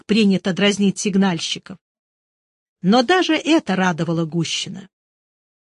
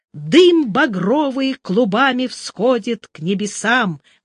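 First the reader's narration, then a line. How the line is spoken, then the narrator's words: Loud. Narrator (Russian): громко сказал Гущин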